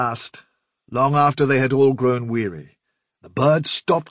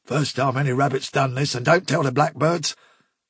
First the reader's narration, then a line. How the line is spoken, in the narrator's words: he muttered something about